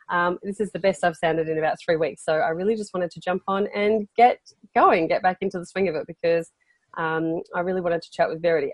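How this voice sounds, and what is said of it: Nasal, unwell-sounding voice. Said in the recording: “my voice isn't 100% today ... the nasal man tones”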